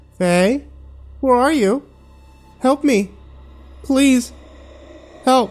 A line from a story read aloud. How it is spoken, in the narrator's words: Becca's voice called out from beyond the door